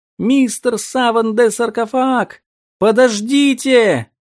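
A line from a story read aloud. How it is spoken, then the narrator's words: Boys shouting into tomb. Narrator (Russian): крикнуть в дверь темной гробницы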